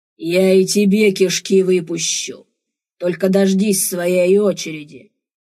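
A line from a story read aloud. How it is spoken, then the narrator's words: Growled through teeth. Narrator (Russian): прорычал сквозь зубы Бран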